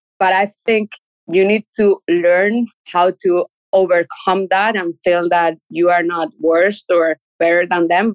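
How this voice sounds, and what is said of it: Non-native English accent. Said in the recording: “I have an accent, my English is not perfect, it's good enough, but it's not perfect. And I can't get rid of my accent. ... being a foreigner ... not in Chile though”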